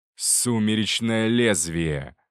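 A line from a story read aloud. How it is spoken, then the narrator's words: Hissing. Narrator (Russian): прошипел один из них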